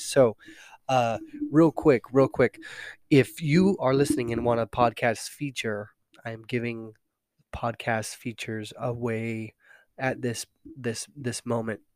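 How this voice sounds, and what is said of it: Congested, nasal voice. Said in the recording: “forgive my voice today. It's a little under the weather, a little stuffy behind the nose, and so you get the nasally me today”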